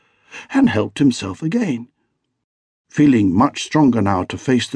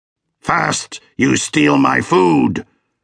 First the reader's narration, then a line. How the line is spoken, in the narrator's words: snarled the beast